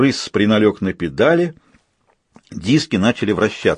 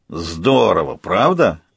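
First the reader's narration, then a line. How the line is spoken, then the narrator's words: Hoarse crow voice. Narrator (Russian): раздался хриплый вороний голос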